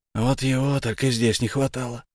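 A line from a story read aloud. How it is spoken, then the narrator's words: Breathless exhale. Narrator (Russian): выдохнул, переходя на беговой дорожке на шаг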